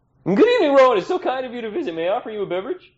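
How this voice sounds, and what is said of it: Put-on eccentric intellectual accent. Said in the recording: “drop the accent ... you'd put that on for show ... the whole eccentric intellectual thing”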